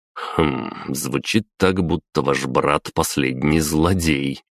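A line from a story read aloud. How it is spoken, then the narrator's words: Hmph. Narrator (Russian): хмыкнул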